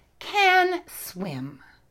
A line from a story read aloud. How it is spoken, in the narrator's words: said Catta loudly